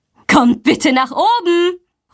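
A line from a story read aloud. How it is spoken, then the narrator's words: Called out. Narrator (German): ruft sie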